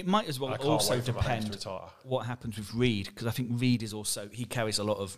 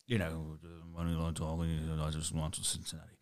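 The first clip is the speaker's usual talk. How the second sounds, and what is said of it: Imitates another person's voice. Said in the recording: “compared to Belichick ... That's actually a really good impression.”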